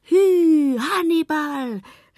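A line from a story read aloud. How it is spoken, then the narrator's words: Calling. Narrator (German): rief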